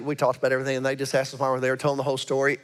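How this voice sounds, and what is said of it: Southern American Alabama accent. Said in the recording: “are you all from Alabama? ... actually, it was your accent ... you sound like them ... Mobile”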